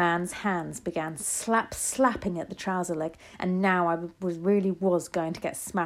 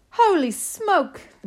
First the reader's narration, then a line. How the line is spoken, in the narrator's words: the man was yelling